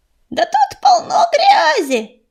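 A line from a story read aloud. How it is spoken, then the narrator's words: Joyful shriek. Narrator (Russian): радостно завопила она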